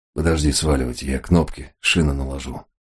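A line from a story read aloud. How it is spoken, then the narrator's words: Grumble. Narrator (Russian): буркнул Толстый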